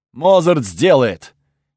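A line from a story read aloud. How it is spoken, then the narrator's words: Loud assurance. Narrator (Russian): громко заверил тот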